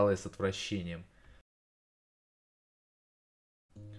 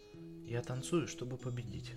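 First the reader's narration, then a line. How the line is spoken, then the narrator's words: Calm announcement. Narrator (Russian): спокойно объявила она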